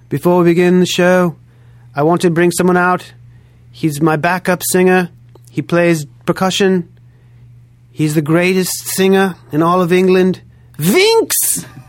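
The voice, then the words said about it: Weak imitation of British accent. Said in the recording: “I don't do a good British accent at all”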